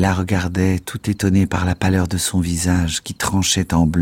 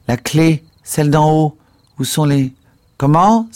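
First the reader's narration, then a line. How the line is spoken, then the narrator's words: Exclaimed. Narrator (French): s'écria-t-il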